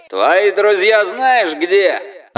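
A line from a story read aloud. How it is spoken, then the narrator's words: Amplified yelling. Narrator (Russian): орал через диспетчерский суперусилитель какой-то люмпен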